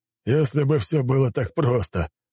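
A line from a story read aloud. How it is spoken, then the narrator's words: Snorting reply. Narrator (Russian): хмыкнул в ответ Кожедуб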